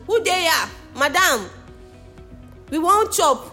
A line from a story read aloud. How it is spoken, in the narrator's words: they'll be shouting